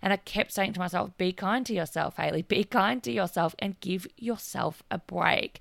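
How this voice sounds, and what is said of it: Hoarse, strained voice. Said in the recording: “Sorry, I'm losing my voice today.”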